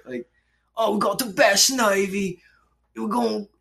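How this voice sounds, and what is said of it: Crude, poorly done British accent. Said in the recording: “it's like the dirtiest British accent. Like, it's shitty as fuck.”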